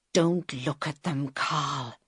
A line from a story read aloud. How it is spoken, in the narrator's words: he whispered